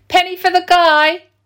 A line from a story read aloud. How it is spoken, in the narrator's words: Claire, Corrie and Colin had sat outside the co-op shop in their corner near their home in Huntingdon, shouting